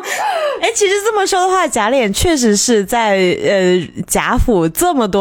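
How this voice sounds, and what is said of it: Usual voice. Nothing is said of it.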